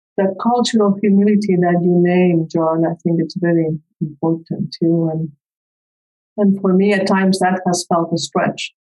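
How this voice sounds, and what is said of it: Spanish-accented English. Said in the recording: “I grew up in Spain. I came here when I was 25. So even English is not my first language, as you can tell.”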